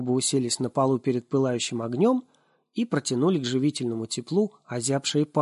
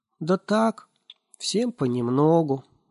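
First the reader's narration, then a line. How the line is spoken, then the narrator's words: Uncertain. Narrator (Russian): неуверенно сказал он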